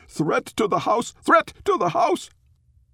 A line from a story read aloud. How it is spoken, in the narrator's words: Barley whimpered, whining and barking in turn, yelling to anyone who could hear